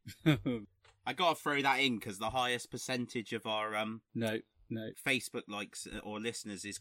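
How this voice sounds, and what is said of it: West Country Bristolian accent. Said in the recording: “You've never sounded more West Country ... I've got a bit of a Bristolian lilt coming on ... what's happened to my Cornishness?”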